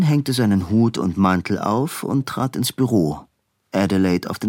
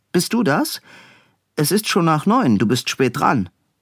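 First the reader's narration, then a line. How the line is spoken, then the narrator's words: Calling out. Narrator (German): rief Robin jetzt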